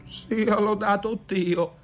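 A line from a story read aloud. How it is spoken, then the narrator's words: Exclaiming blind man. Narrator (Italian): esclamava il cieco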